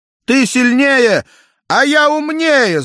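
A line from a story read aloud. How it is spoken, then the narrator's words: Shouted. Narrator (Russian): закричал Джек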